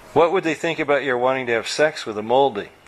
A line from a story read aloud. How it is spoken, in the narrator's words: Tucker sighed